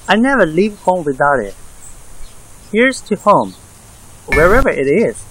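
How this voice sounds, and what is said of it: Speaks with a foreign accent. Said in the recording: “You have an accent.”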